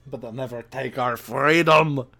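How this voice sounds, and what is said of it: Bad Scottish accent, Schwarzenegger-like. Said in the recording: “That's the worst Scottish accent. That sounded like Arnold Schwarzenegger parodying that movie.”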